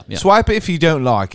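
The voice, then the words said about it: Put-on British accent. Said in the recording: “with a British accent, it sounds like more, it feels cool.”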